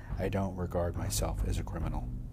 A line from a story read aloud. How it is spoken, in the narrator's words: Sirhan said flatly